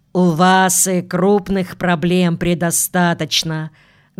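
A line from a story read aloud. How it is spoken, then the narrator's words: Deep authoritative voice. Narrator (Russian): густым голосом сказал посетитель, видимо, облеченный властью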